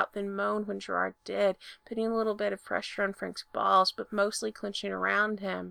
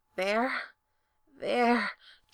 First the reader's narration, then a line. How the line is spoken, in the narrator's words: Gerard confirmed breathlessly